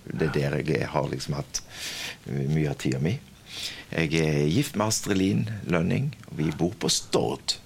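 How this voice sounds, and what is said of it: Southern Norwegian dialect. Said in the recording (Norwegian): “dialekten min sier det at jeg kommer sørifra, så jeg kommer fra Kvinesdal”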